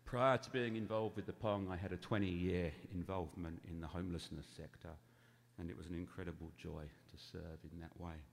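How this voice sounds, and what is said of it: English accent. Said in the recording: “as my accent betrays, I'm of English origin”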